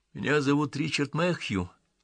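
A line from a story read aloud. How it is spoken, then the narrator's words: Quiet. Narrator (Russian): тихо продолжал он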